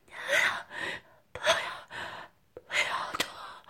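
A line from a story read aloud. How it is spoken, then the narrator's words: Weak, hoarse, straining, urgent. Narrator (Chinese): 妖姬虚弱而沙哑，却用尽力气忙着道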